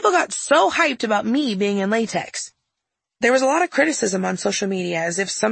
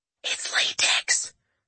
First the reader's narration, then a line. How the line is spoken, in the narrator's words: I whisper shouted